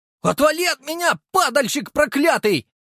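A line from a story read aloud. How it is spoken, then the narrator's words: Shouting while fleeing. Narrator (Russian): выкрикнул Прохоров, удирая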